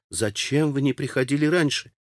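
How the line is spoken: Reproachful. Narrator (Russian): таким голосом, с укором

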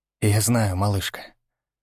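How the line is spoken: Soft, gentle. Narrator (Russian): сказал мягко

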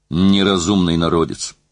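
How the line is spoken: Grumbling. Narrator (Russian): проворчал он

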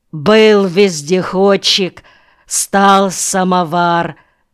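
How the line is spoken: Said loudly. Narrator (Russian): громко сказал он

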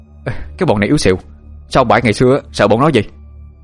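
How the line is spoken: Shouting. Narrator (Vietnamese): Thông quay sang hét lên

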